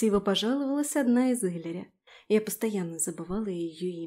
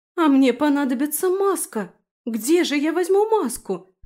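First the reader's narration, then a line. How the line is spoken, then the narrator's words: Sorrowful exclamation. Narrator (Russian): горестно воскликнула Трис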